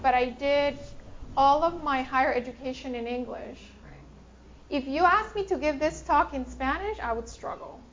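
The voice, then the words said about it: Spanish-accented English. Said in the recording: “I'm primarily Spanish speaker ... I'm having to monitor my accent”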